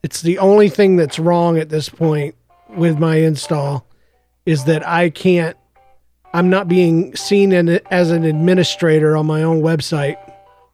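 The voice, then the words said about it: Gravelly voice with a cough. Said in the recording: “I have a cough ... My voice gets extra gravelly.”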